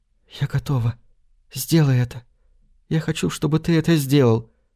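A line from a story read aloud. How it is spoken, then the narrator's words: Whisper. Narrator (Russian): она шепнула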